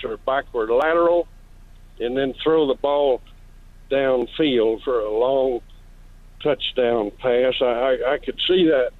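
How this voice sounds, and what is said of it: Southern US accent. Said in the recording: “You can tell I'm a Southerner by my accent.”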